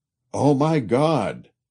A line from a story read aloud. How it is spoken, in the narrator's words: he would suddenly exclaim